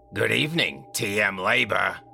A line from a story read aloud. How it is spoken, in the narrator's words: she said with a raspy voice into the antique rotary phone